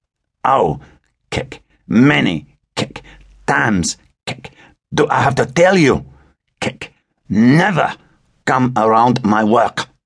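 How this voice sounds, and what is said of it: Slurred heavy French accent. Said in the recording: “Philippe's words were slurred, his heavy French accent rendered almost unintelligible by half a bottle of vodka on top of a hit of heroin”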